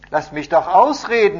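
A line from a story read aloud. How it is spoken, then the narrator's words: Man calling out. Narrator (German): rief der Mann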